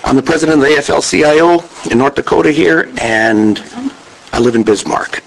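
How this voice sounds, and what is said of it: Congested voice with a cold. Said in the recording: “I have a little bit of a cold.”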